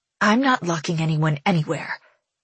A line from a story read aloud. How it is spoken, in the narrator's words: whispers back